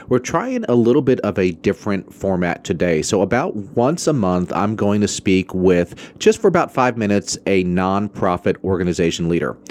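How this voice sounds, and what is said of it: Voice slightly affected by a cold. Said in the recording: “I have a little bit of a cold, so I'm not sure how bad my voice sounds”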